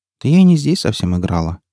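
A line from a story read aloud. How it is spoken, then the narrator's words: Uncertain reply. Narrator (Russian): неуверенно ответила Настя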